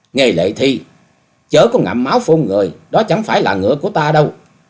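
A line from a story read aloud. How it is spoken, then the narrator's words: Loud angry shout. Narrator (Vietnamese): cao giọng quát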